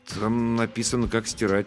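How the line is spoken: Uncertain explanation. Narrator (Russian): неуверенно объяснил я

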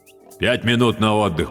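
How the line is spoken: Deep bass. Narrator (Russian): пробасил Докучаев

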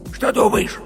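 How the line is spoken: Heated whisper, young animal. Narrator (Russian): жарким шепотом спросил медвежонок

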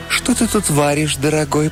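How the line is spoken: Cooing. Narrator (Russian): проворковала она

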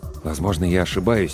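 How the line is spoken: Quiet. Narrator (Russian): тихо сказал доктор

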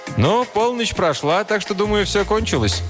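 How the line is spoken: Cheerful. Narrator (Russian): Один из них весело сказал

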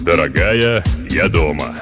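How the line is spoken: Deep bass announcement. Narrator (Russian): возвестил он глубоким басом

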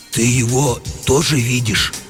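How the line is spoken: Confused whisper. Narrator (Russian): растерянно спросил комендант все еще шепотом

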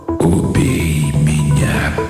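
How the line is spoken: Hoarse sleepy male whisper. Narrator (Russian): произнес мужской голос хриплым сонным шепотом

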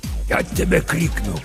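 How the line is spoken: Hissed through teeth. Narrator (Russian): прошипел сквозь зубы папа Сатырос

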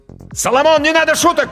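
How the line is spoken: Shouted. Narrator (Russian): крикнул Данька

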